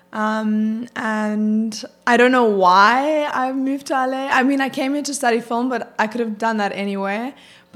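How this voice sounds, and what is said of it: South African accent. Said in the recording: “I know you're not from the U.S. ... most people are picking that up with your accent ... I am from South Africa”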